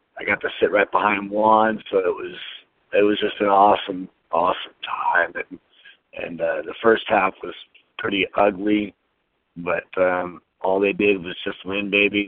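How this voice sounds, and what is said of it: Hoarse, strained voice. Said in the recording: “my voice is completely destroyed from giving everything I could all the way to the overtime, yelling my head off”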